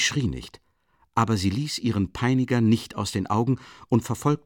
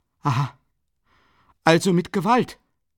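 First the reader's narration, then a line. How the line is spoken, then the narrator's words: Frightened exclamation. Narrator (German): rief Dunja aus, wurde totenblass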